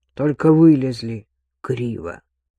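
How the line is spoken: Gloomy. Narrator (Russian): мрачно добавил Бабкин

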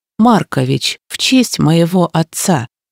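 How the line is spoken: Calm reply. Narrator (Russian): откликнулась я спокойно

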